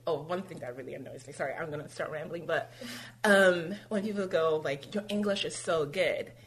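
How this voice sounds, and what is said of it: Generic American accent. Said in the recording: “I obviously have a generic American accent”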